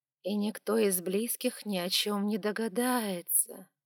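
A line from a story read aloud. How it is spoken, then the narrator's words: Drawn-out drawl. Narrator (Russian): протянула я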